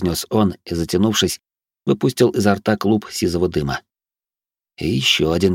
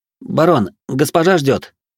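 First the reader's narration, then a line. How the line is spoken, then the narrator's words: Uncertain young voice. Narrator (Russian): неуверенно произнес молодой посыльный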